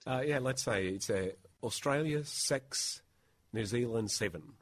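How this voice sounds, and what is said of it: Put-on New Zealand accent. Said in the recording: “in a New Zealand accent would be, sounds like New Zealand 6, Australia 7 ... Can you do it in a good New Zealand?”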